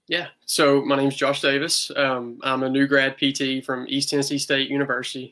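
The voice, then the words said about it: Rural Southern American accent. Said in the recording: “if you couldn't tell by my hick accent.”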